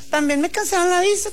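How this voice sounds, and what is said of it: Imitated Chihuahua Mexican accent. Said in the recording (Spanish): “El acento ... Chihuahua.”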